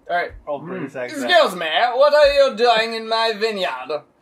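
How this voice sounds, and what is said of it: Put-on British accent, old Roman. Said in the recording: “What does an old Roman person sound like? ... British accent? ... Definitely.”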